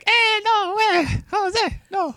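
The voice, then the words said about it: Imitates a young child's voice. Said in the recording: “I was just being a little kid, a prepubescent child.”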